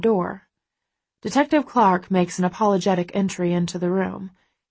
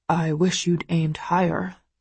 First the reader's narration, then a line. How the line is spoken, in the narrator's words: Christian mutters